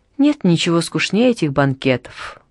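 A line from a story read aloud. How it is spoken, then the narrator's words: Sighing. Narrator (Russian): вздохнула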